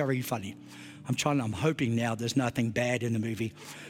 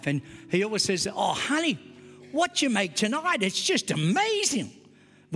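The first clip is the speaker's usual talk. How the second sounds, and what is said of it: Exaggerated broad Australian accent. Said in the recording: “with this very Australian accent, even more Australian than I sound”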